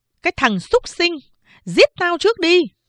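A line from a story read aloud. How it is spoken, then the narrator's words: Shrill scream. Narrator (Vietnamese): Mẹ tôi thét lên chói tai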